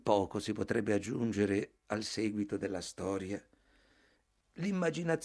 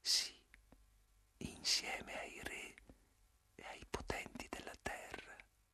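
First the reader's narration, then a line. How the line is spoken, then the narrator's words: Murmured. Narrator (Italian): mormorai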